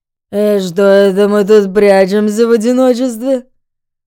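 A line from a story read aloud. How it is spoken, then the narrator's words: Almost purring. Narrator (Russian): Почти промурлыкал он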